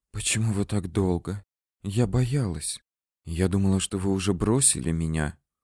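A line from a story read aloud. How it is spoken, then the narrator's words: Whispering. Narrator (Russian): прошептала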